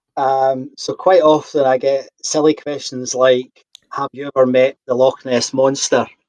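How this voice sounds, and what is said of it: Scottish accent. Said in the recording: “might be able to recognise a Scottish accent.”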